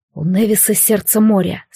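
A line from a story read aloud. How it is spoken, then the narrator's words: Quiet, desperately determined. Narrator (Russian): сказал Алистар, тихо и с отчаянной решимостью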